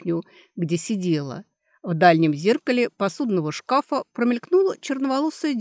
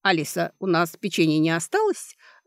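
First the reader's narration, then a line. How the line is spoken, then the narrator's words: Kind question. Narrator (Russian): добрым голосом спросила мать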